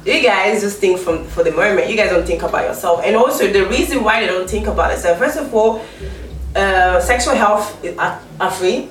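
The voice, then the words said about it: Non-UK accent. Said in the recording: “I'm not from the UK, as you can hear from my accent”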